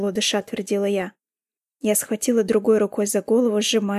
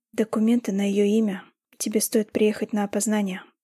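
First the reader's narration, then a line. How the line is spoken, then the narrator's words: Sad voice. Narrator (Russian): грустным голосом проговорил Вилсон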